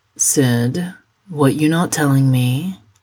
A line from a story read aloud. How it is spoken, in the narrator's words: Sydney sighs